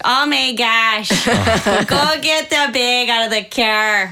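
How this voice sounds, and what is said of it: Imitated strong northern Michigan accent. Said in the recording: “My mom has the worst accent. Michigan accents, I think, are the worst. ... It was super north, too.”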